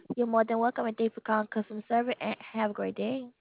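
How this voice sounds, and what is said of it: Southern American accent. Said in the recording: “You have a real Southern accent.”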